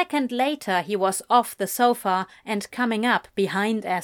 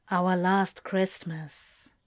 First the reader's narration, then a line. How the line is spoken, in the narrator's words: more solemnly